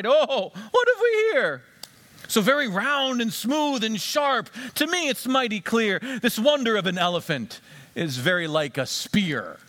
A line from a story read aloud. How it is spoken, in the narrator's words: The second cried